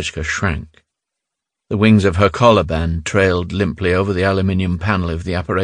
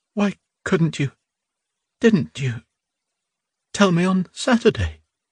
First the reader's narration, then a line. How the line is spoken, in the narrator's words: she asked brokenly